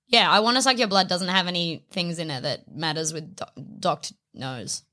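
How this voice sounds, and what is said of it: Usual voice. Nothing is said of it.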